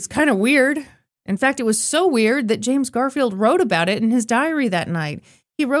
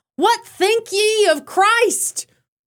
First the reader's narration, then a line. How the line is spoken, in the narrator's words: he even shouted